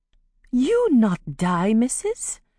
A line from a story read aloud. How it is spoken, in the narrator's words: Amari said in her most soothing voice